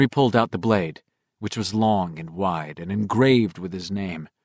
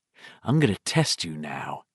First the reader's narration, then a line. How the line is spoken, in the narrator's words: Henry said in that same reflective voice